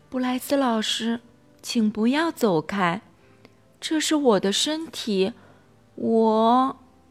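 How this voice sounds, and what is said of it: Quiet, hushed voice. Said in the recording (Chinese): “小声的对布莱斯老师说”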